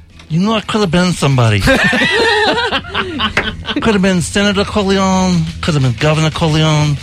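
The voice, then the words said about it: Mumbling imitation of another person's voice. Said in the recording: “That's a pretty good brando. ... talking to yourself. Like, ... mumbling. ... Put more gauze in your mouth.”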